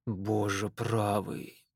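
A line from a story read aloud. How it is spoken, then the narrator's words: Grumbling. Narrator (Russian): буркнул хозяин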